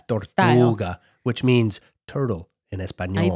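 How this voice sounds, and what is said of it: Exaggerated put-on Spanish accent. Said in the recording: “this offensive accent whenever I speak Spanish”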